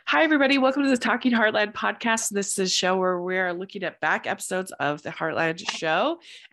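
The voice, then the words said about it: Raspy, weird-sounding voice. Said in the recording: “forgive my voice today. I've got a cold... I've got a strong cold. So I'm sorry you get the raspy, weird sounding ... today”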